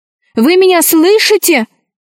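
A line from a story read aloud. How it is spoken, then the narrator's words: Shouting. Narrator (Russian): кричала Алиса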